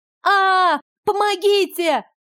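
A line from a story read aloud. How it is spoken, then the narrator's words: Shrieking. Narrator (Russian): Завизжала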